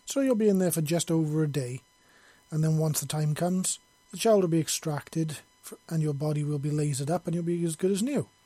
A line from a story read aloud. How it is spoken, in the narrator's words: Yoshi said calmly, and with a smile on his face